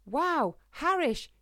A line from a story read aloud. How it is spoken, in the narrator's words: she exclaimed at the sight of all the fruit and insects